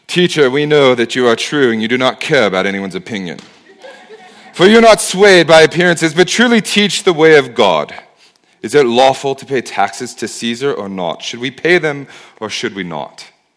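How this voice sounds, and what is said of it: Put-on villain accent. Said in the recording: “I always do a bad guy's accent”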